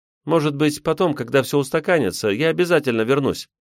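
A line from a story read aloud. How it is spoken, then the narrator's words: Rapid chatter. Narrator (Russian): продолжала тараторить Алина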